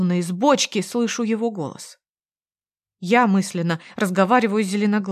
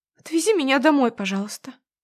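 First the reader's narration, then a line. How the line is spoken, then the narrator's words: Trembling plea. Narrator (Russian): просит дрожащим голосом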